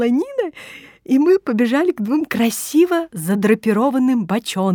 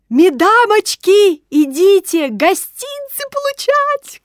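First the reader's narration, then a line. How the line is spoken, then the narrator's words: Shouting with mouth full. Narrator (Russian): кричала Маня Иванова, запихивая в рот целую треть апельсина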